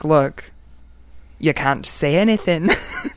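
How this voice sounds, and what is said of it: Put-on Scottish accent. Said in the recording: “That's my Scottish accent. Not too bad.”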